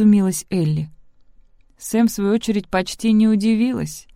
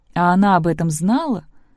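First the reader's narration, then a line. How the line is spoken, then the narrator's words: Plain. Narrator (Russian): спросила Сэм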